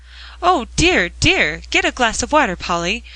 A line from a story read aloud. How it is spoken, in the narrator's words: cried Mr